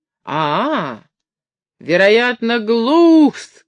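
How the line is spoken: Shouted right into ear. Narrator (Russian): крикнул Кирпичев старичку в самое ухо

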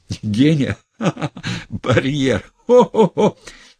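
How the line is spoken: Old man giggling. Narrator (Russian): Старичок-доктор тоже хихикнул

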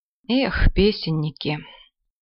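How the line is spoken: Glum grunt. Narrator (Russian): Уныло крякнул Подтягин

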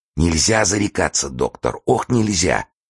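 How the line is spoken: Sick man muttering. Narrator (Russian): бормотал больной

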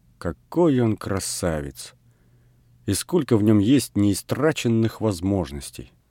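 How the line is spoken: Thoughtful, slow, smiling. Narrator (Russian): Людмила все с той же удивительной улыбкой задумчиво и медленно ответила

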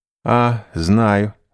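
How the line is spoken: Plain. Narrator (Russian): сказал он

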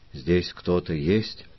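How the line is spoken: Quiet question. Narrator (Russian): тихо спросил Филиппо Мичио

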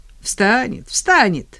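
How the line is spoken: Angry laughter. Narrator (Russian): зло рассмеялась Ника

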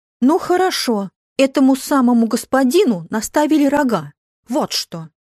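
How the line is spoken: Shouting. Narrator (Russian): она закричала

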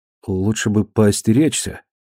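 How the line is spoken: Timid warning. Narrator (Russian): робко предупредил он Нэнси

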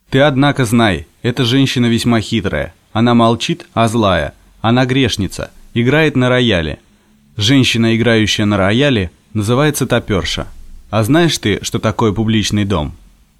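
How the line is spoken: Stern. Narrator (Russian): И заговорил строго

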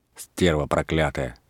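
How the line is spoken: Angry. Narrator (Russian): сердито сказала Варвара

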